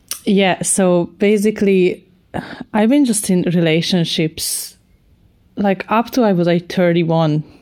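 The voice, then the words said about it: Non-Irish foreign accent. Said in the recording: “I'm not even Irish ... you can hear from the accent, I didn't manage to pick that part up”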